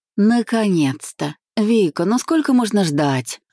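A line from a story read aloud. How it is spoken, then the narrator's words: Exasperated groan. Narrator (Russian): Закатив глаза, простонала подруга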